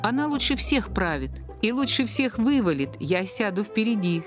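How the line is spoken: Laughing. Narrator (Russian): смеялся Пушкин

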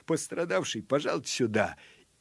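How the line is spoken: Apologetic laugh, then shout. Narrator (Russian): извительно рассмеялся милиционер и крикнул

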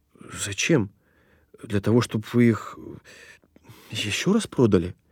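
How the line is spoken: Confused mumble. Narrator (Russian): Я растерянно бормочу

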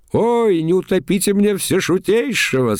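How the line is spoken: Laughing, tsar. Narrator (Russian): смеялся царь

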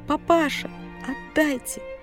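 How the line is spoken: Hoarse wheezing. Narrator (Russian): мать хрипела

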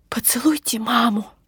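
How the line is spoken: Whisper holding back tears. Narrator (Russian): шепнула я ей, силясь сдержать слезы

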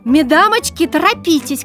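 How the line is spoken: Shouting with laughter. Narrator (Russian): кричала Маня Иванова и хохоча

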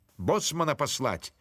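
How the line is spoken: Shouted, baron. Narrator (Russian): крикнул барон

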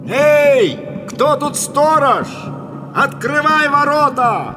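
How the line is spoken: Shout. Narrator (Russian): Подъехал Санасар к воротам, крикнул

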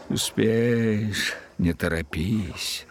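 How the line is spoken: Muttered. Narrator (Russian): если волнение было сильное, этот последний бормотал

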